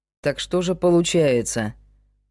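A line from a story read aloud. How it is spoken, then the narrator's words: Gloomy speaking. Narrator (Russian): мрачно проговорил Земцов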